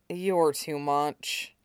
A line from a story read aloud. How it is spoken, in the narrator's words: Aizawa muttered